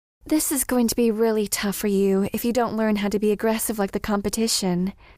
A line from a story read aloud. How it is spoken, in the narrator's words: sighed Melody